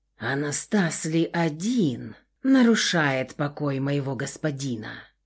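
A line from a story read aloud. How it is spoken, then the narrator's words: Quiet voice. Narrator (Russian): тихо промолвил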